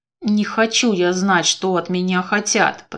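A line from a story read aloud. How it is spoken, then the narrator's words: Grumbling. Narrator (Russian): пробурчала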